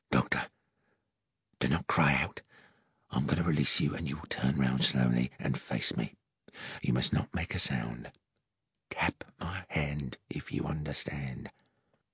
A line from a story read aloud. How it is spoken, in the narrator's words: The hot breath of my assailant in my ear whispered